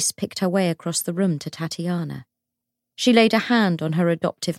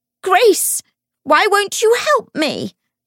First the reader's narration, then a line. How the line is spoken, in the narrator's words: she shrieked